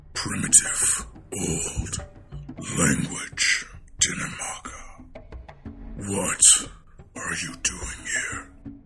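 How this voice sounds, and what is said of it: Very deep, gravelly, bassy character voice. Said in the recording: “a very deep, grovelly voice ... big, deep, bassy voice ... deep voice”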